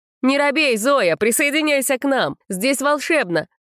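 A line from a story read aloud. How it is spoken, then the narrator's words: Shouting. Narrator (Russian): прокричала Эльза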